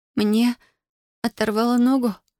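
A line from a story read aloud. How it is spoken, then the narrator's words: Moaning through clenched teeth. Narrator (Russian): простонала она сквозь зубы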